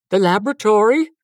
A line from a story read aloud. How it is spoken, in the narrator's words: he answered in a puzzled tone